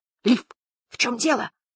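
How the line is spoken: Whispered. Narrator (Russian): прошептал

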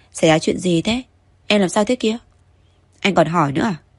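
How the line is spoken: Sulky, resentful reply. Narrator (Vietnamese): Tống Chiêu Chiêu hậm hực trả lời, có vẻ như cô gái này đang hờn dỗi

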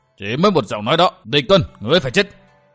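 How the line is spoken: Furious roar. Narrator (Vietnamese): vương côn điên tiết gầm lên

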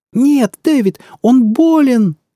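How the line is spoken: Screaming while struggling. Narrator (Russian): завопила она, беспомощно трепыхаясь в его крепких объятиях

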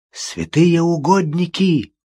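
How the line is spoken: Speech, then hoarse coughing. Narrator (Russian): произнес Тоби и зашелся хриплым кашлем

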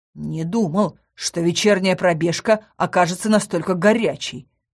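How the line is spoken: Muttered through gritted teeth. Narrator (Russian): сквозь зубы процедил Сандер

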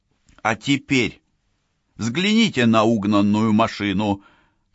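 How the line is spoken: Barking. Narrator (Russian): рявкнула она

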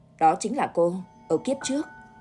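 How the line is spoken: Cold male reply. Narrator (Vietnamese): Giọng hắn vẫn lạnh lùng trả lời

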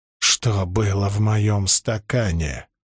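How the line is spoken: Hissed. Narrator (Russian): прошипел Гуга

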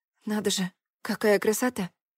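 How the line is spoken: Quiet remark. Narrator (Russian): Еще раз заметила я, но уже тихо

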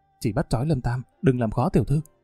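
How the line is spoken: Whisper. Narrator (Vietnamese): Một kẻ dáng người nhỏ nhắn đứng kế bên Đào Đông Thành thì thầm

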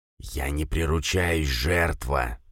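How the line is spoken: Hissing inner voice. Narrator (Russian): прошипело у меня в голове существо

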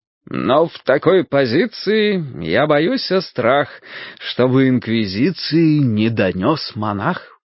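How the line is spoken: Said, then laughing. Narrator (Russian): сказал он и засмеялся

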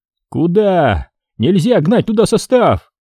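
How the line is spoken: Yelling back. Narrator (Russian): орал в ответ Леха

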